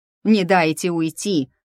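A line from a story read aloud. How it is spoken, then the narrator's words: Booming shout. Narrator (Russian): прогремело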